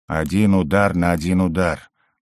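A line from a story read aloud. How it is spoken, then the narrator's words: Muttered. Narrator (Russian): пробормотал Угорь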